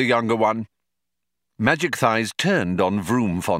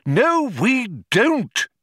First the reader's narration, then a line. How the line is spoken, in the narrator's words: exclaimed Magic Thighs in irritation